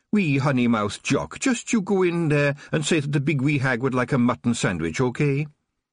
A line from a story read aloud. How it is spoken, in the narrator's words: the Kelder cut in sharply and said